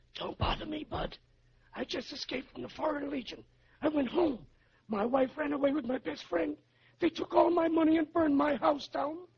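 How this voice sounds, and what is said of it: Whispering. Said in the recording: “Why do you think I'm whispering?”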